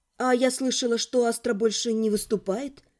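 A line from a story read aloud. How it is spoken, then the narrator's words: Said quietly. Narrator (Russian): сказала тихо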